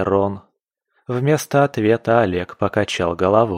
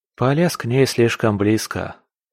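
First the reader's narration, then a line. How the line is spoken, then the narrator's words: Sighing. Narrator (Russian): вздохнул он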